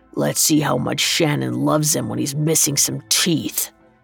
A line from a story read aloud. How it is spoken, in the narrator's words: Tommy growled